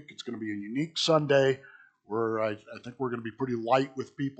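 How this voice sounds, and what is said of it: Slightly scratchy voice. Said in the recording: “if my voice is a little scratchy, I've been sick this week”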